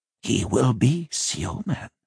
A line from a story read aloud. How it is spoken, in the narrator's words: the doctor said, his voice hoarse